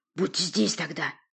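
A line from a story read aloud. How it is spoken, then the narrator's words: Hiss. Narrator (Russian): прошипел я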